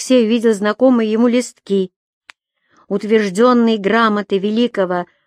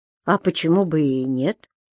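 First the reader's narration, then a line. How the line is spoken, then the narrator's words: Calm response. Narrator (Russian): спокойно среагировал Алексей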